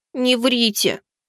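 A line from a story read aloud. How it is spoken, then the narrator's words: Barely audible child's grumble. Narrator (Russian): едва слышным буркнула маленькая обратница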